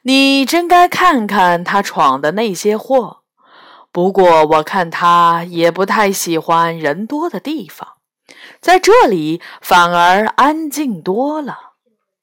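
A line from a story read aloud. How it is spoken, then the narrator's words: Cold sneer. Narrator (Chinese): 石鞋怪冷笑一声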